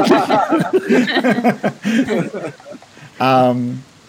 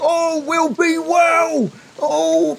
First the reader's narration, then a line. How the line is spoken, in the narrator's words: you can hear Vargas from within that sphere of fog just shouting